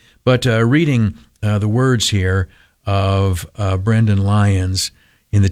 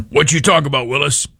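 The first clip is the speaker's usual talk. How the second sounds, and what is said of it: Weak Gary Coleman impression. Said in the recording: “impersonation of Gary Coleman ... Only higher voice, and I clearly didn't do a good impersonation.”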